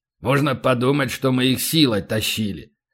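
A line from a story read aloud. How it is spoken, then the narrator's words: Disgusted grumble. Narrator (Russian): проворчал полубой, брезгливо глядя на экран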